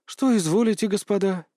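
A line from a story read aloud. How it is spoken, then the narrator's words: Weary question. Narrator (Russian): устало спросила дама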